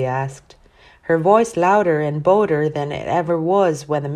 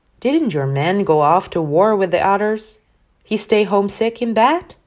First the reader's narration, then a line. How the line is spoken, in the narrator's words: giggled